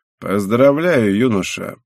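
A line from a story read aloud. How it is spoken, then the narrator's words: Creaky male voice. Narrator (Russian): проскрипел мужчина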